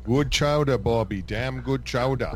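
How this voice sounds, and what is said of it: Put-on accent. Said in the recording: “That word helps me get into the accent.”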